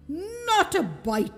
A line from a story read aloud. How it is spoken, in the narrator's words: he snapped